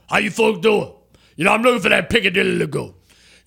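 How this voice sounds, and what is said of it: Imitates another person's voice. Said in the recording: “can I do my Ed O impersonation?... How would Ed Orgeron go into Piccadilly and, and place an order?”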